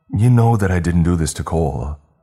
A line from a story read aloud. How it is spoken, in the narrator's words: I blurted